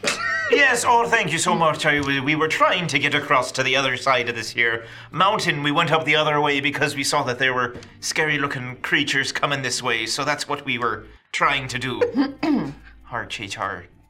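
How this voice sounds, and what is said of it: A bad put-on accent. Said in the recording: “That is the worst accent.”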